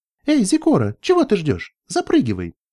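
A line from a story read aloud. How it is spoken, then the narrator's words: Cheerful shout. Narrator (Russian): весело крикнула Керли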